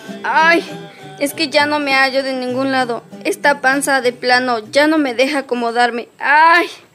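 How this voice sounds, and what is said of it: Crying out, shouting in pain. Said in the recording (Spanish): “¿Por qué gritas?”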